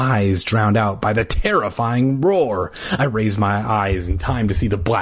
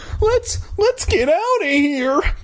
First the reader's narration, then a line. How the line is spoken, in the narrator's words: I cried